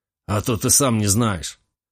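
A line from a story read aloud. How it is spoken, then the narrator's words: Snort. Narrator (Russian): хмыкнул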